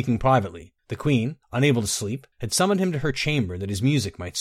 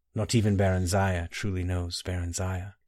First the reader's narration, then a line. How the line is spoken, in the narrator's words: whispered softly